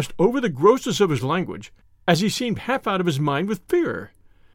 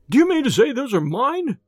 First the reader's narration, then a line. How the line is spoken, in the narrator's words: he cried